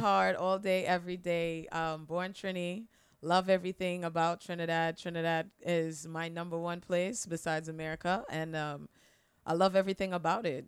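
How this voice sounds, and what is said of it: Slight Trinidadian accent. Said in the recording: “the slight accent ... I am originally from Trinidad and Tobago.”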